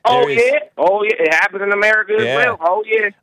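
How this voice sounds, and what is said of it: Strong Tennessee country accent. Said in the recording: “This is how you really talk in normal conversation, or are you putting on an accent? ... Some don't speak quite like this. ... Now he's playing it up.”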